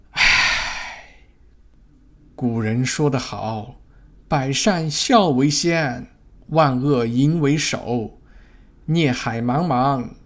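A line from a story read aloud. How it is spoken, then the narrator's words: Sighing. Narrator (Chinese): 朱先生叹息说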